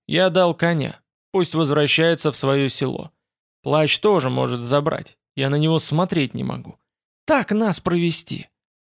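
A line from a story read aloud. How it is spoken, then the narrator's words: Even, level voice. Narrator (Russian): Пансаменар пояснил ровным голосом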